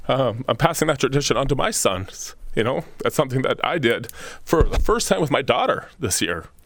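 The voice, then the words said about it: Emotional, choked-up voice. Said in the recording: “getting emotional ... Ugh, this is stupid to get emotional”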